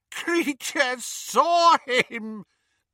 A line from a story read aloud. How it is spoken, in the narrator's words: gasped the elf, as tears poured over his snout and into his mouth